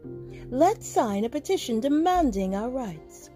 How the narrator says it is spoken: cried one man

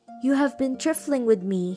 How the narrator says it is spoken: he cried

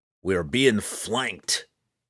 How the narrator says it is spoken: Roddy McGristle snarled

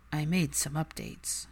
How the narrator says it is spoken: Draco murmured

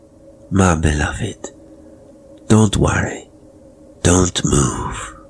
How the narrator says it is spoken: She murmured

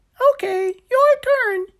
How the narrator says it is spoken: he yelled

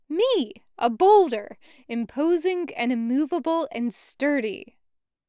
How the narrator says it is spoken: puffed up chest, almost exclaiming a proud

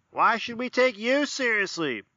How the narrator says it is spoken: a voice shouted from the middle of the room

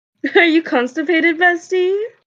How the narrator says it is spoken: They shouted

